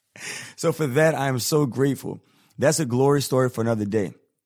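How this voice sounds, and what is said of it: Sick, rough, higher-than-usual voice. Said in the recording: “my voice is all messed up right now. I'm a little under the weather. So normally I have a little bit more of a deeper voice”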